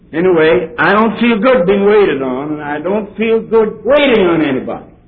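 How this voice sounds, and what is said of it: Dutch accent. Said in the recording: “my Dutch accent”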